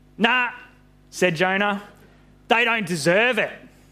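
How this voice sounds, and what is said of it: Put-on Australian accent. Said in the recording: “he's got an Aussie accent. Probably wouldn't have been very accurate”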